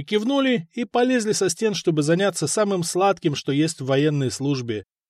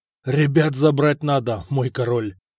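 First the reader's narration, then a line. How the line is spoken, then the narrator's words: Hoarse rasp. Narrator (Russian): прохрипел Руди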